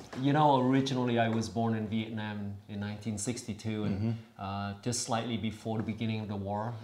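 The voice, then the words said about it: Southern accent. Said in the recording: “your Southern accent”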